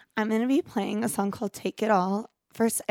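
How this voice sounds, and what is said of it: Rough, smoky worn-out voice. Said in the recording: “apologize for my voice... I sound like I've been in a smoky bowling alley for the past 2 weeks”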